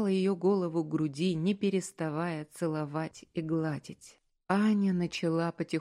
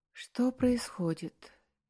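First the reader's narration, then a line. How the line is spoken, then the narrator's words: Quiet dazed question. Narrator (Russian): тихо спросила она, когда окончательно пришла в себя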